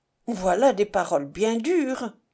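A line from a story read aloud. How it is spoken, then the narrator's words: Effortful, trembling, stammering. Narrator (French): dit-elle avec effort, car ses lèvres tremblaient et ses paroles étaient comme bégayées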